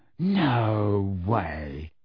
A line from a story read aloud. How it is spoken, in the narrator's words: said George, in a hushed voice